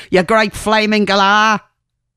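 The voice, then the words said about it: Poor put-on Australian accent. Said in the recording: “Sorry for the very poor Aussie accent there.”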